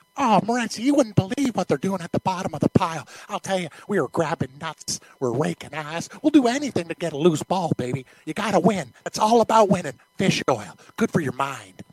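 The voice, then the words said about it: Imitates another person's voice. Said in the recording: “your Romanowski fish oil impression”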